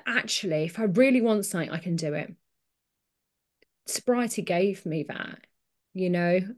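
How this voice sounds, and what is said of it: Emotional, choked-up voice. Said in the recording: “I'm getting emotional”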